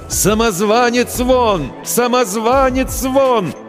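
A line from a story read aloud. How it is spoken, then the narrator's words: Crowd shouting. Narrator (Russian): толпа кричала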